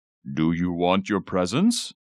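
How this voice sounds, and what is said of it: Deep Santa Claus character voice. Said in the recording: “In a deep Santa voice”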